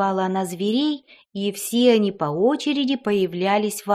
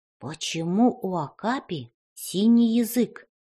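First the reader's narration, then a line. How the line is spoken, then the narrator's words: Whispered question. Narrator (Russian): шепотом спросил Никита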